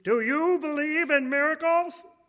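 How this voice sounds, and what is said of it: Imitates another person's voice. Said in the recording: “that was a bad impression”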